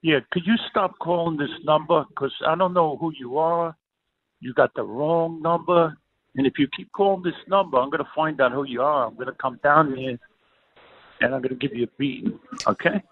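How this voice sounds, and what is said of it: Speaks with a noticeable accent. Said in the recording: “I like the guy's accent.”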